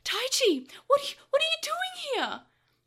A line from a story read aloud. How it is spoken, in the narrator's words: Joe squeaked in loud surprise